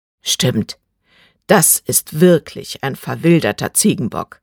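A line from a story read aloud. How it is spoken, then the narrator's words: Deadpan serious answer. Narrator (German): antwortete mit todernster Stimme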